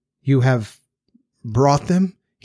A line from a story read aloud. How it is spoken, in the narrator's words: faltered